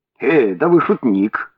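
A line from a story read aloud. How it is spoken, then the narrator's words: Laughing inspector. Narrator (Russian): засмеялся инспектор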